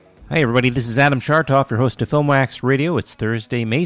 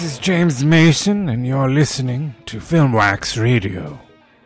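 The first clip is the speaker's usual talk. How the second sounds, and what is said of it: Imitates another person's voice. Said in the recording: “my James Mason impression”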